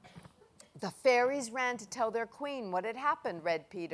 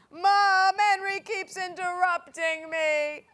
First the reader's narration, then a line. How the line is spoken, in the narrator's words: wailed Peter